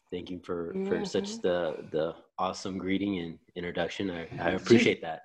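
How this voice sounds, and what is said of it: Deep radio announcer voice. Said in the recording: “his voice went down an octave ... This is my radio voice.”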